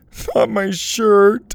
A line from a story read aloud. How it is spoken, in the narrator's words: he cried